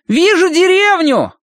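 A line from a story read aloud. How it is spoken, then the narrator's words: Shouting from above. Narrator (Russian): крикнул сверху Колин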